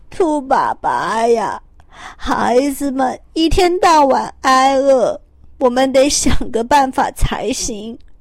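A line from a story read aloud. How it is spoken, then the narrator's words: Crying. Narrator (Chinese): 兔太太哭着说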